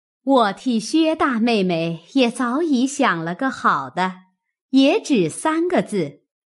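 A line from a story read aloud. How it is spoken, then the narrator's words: Laughing. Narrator (Chinese): 李纨笑道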